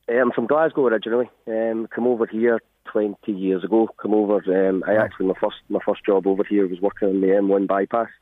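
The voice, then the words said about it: Scottish Glasgow accent. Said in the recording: “you've not picked up a Drogheda or an Avon accent ... I'll keep the Scottish accent.”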